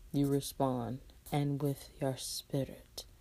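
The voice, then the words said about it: Put-on fake accent. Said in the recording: “the accent, the fake accent I'm trying to give”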